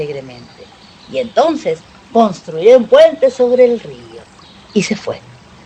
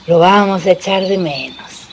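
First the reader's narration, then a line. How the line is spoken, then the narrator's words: Sighing. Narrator (Spanish): suspiró Liebre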